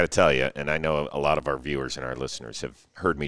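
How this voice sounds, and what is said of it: Usual voice. Nothing is said of it.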